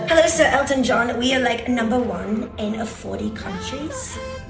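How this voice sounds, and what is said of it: Mock British accent. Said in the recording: “mock British accent”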